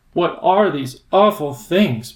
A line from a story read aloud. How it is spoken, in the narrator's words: Ben gasped